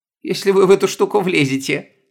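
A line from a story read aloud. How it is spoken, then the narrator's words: Snorting. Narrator (Russian): хмыкнула Стефания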